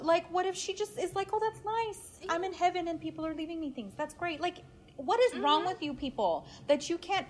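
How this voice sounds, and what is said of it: Screaming, loud angry speech. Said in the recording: “I'm sorry, I'm screaming.”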